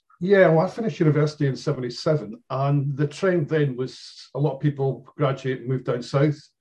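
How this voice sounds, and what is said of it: Faint Dundee Scottish accent. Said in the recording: “I can still sense your accent ... I get to go back to Dundee every so often just to practice it again.”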